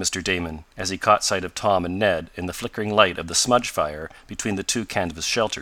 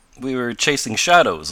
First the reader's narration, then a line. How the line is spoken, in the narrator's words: laughed Tom